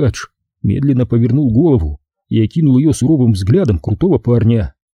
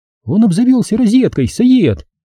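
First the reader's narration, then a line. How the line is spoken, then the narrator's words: Joyful. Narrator (Russian): Радостно сообщила Ясмин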